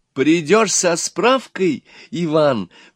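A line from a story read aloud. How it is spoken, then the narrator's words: Agitated, anxious. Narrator (Russian): взволнованно сказала Лиза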